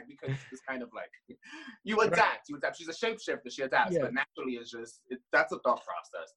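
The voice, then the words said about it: New York area accent. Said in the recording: “Jersey, New York, and all that's going to be more Puerto Rican and very accent savvy ... it is her accent. It's because of her environment.”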